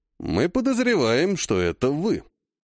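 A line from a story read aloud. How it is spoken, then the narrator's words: Calm reply. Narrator (Russian): спокойно ответил Алексей Дмитриевич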